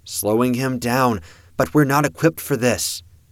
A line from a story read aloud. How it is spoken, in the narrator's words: the female Beheim called out